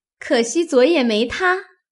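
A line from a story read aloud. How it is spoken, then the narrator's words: Laughing. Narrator (Chinese): 晴雯笑道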